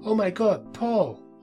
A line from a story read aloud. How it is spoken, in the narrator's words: Denise yelling